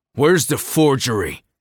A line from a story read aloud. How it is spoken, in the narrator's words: Kai snarled, the words sounding feral even to him